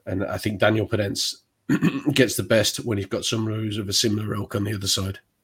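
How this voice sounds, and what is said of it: Hoarse, fading voice. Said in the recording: “I'm losing my voice now, sorry.”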